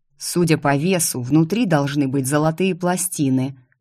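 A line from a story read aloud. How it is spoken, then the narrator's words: Grumbling. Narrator (Russian): проворчал Алекс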